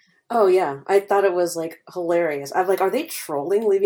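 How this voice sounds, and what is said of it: Usual voice. Nothing is said of it.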